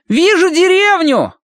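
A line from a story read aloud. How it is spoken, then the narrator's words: Shouting from above. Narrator (Russian): крикнул сверху Колин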